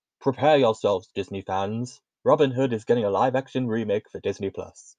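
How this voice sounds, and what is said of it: Odd put-on accent. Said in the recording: “I don't know what accent that was”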